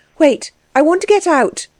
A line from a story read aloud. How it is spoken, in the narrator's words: cried Anna